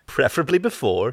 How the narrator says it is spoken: she said with a small laugh

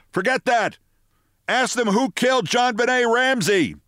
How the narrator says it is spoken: Phil Griffin, and he was shouting

